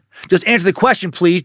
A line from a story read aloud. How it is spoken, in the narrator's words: Gerald snapped